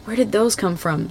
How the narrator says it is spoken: Sam whispers

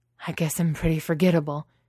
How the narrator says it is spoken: he gasps

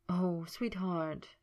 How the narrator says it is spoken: Merlin breathed, feeling terrible

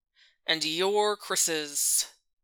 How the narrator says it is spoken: the man asked in a skeptical kind of tone

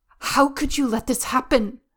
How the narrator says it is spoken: Wei Wuxian growls

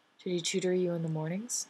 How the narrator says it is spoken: She asks, and her voice is so flatly non-judgmental it's a little infuriating

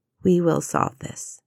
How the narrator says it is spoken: she said quietly

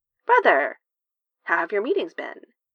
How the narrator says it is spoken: she asks brightly

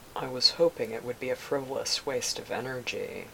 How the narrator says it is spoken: Obi-Wan replied in a grim tone

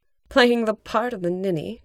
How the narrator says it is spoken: Janine scoffed

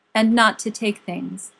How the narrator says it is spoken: said Aragorn

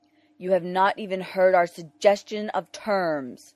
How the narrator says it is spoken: the ambassador protested loudly

